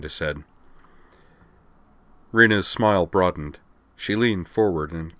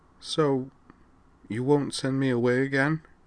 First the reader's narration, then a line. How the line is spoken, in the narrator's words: smiled wanly, and said in a small voice